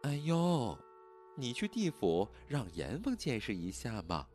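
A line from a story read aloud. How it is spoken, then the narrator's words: Gentle voice. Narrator (Chinese): 徐清霜继续柔声道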